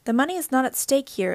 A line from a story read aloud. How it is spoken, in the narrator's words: Elisa said firmly